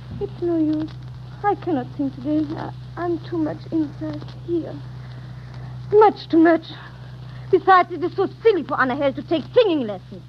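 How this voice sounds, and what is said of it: Foreign-accented English. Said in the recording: “I merely tried to assist Madame to lose a little of her accent.”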